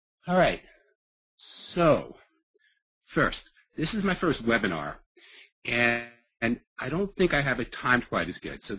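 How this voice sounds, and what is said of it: Long Island Brooklyn accent. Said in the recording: “my blend of Long Island, Brooklyn accent”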